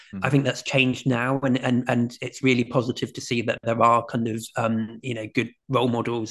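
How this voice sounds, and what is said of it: British accent. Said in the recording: “I live in the UK, as you can tell from my accent.”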